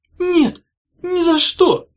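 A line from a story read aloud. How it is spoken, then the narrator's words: Hoarse rasp. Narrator (Russian): прохрипела Улита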